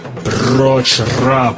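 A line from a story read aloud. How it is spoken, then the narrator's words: Booming. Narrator (Russian): прогремел Болло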